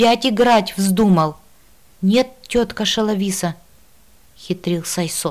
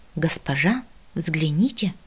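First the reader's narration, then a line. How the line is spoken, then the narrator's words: Whisper. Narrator (Russian): шепнул мне Мила, наклонившись к уху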